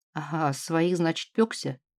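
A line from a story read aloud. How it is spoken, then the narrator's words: Indignant drawl. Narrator (Russian): возмущенно протянул Воронин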